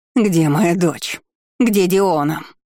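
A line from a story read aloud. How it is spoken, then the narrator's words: Woman's furious, anxious growl. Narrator (Russian): рыкнула женщина с яростью и тревогой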